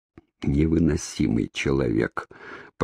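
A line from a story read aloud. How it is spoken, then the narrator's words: Exasperated mutter. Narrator (Russian): пробормотал он в сердцах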